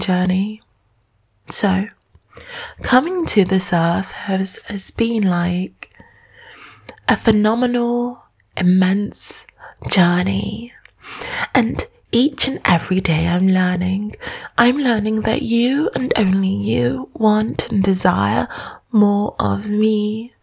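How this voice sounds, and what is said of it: Soft, soothing voice. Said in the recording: “my voice is soothing”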